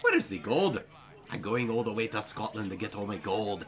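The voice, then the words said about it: Put-on Scottish accent. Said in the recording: “put on a Scottish accent ... I sound like David Tennant”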